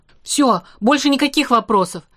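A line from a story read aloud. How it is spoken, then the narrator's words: Barked. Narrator (Russian): рявкнул Штерн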